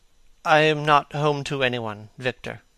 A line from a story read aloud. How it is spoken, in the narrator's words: he said with a sigh